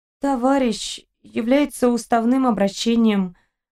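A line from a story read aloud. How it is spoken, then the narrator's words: Unclear unsteady mumble. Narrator (Russian): пробормотала непонятно, прикусывая губу и шатаясь, как былинка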